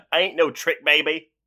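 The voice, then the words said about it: Put-on accent imitating Reese Witherspoon's character. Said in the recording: “accent ... dramatic readings of Reese Witherspoon's lines”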